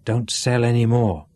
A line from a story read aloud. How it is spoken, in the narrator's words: he whispered